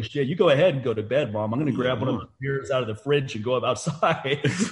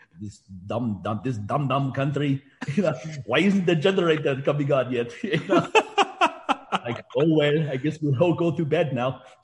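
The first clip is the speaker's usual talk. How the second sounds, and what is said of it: Imitated Indian accent, complaining tone. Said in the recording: “my mom in her Indian accent complaining”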